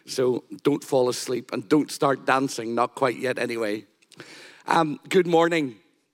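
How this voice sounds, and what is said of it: Husky, raspy sick voice. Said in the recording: “Excuse my voice. I've been battling one of the bugs ... I do sound a little bit like a soul singer this morning.”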